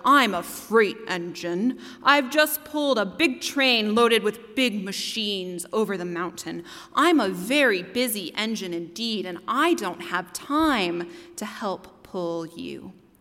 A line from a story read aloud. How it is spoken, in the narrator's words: the big, strong Levitical engine bellowed